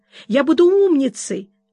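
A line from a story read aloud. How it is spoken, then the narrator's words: Loving, devoted babbling. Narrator (Russian): с какой любовью и преданностью она лепетала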